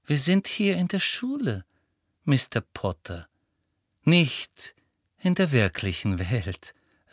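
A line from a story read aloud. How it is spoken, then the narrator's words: Said gently. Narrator (German): sagte sanft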